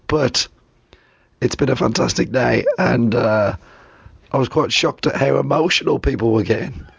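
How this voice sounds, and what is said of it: Hoarse, nearly lost voice. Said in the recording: “I've lost my voice, as you can tell. I've had a bad throat for the last couple of days ... So I lost it.”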